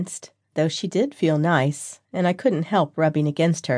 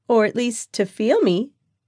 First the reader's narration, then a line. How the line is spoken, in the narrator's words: giggled Mandy